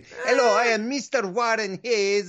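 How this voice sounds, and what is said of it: Put-on Eastern European accent. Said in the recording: “I wasn't trying to do a British accent. It was more like an Eastern European thing.”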